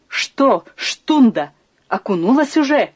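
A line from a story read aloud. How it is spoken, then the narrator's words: Female shout. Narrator (Russian): крикнула она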